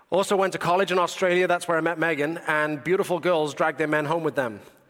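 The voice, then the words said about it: British accent. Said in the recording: “I've lived in the UK, which is, of course, where I'm from. That explains the funny voice.”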